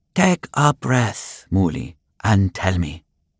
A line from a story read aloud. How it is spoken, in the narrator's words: she spoke in her same calm voice